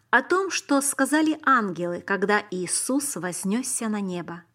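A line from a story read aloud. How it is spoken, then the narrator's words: Plain. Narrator (Russian): ответила она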